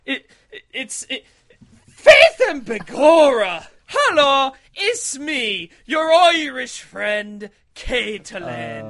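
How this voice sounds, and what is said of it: Exaggerated bad Irish accent. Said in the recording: “trying to do a bad Irish accent.”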